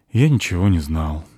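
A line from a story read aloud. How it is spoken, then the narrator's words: Sigh. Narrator (Russian): вздохнул Кифри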